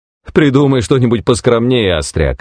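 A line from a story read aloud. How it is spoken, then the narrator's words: Laughing. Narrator (Russian): рассмеялся Хэм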